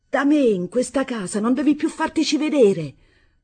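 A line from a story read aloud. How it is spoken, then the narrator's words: Shouting. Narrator (Italian): gridando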